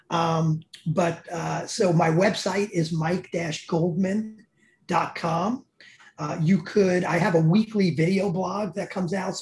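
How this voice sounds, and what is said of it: Bronx accent. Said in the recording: “my Bronx accent”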